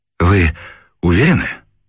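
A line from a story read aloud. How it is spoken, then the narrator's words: Anxious repeated question. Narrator (Russian): взволнованно переспросил его Невельской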